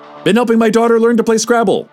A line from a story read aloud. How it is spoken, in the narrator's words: Al blurted without prompting